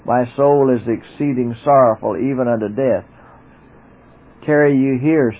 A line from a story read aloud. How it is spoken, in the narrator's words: said